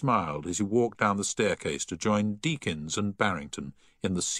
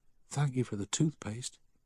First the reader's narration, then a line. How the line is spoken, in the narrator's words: He heard a voice whisper